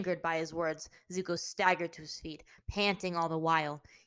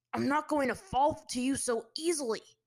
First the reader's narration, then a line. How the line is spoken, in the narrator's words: replied through clenched teeth